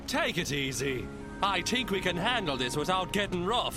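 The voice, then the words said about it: Irish accent. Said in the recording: “the sergeant, who in the dub has an Irish accent ... Irish American cop.”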